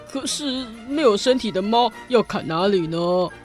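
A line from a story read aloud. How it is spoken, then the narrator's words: Soldier speaking low. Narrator (Chinese): 其中一位士兵低声地说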